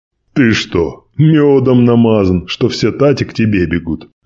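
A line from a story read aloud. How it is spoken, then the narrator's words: Laughing. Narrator (Russian): рассмеялся стражник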